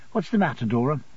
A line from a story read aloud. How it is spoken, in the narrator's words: I would go softly to her and say